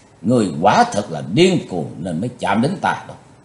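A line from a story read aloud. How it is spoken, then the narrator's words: Dark loud shout. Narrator (Vietnamese): Thiếu giáo chủ âm mà quát to lên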